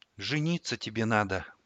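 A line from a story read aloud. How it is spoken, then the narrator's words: Quiet. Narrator (Russian): тихо произнесла Ксана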